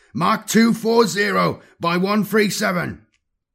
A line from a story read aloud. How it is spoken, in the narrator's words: Kron roared